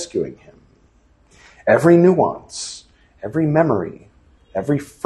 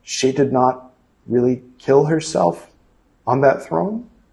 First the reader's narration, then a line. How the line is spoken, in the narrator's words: He said meekly